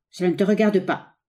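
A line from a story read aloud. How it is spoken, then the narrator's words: Harsh reply. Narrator (French): répondit l'autre durement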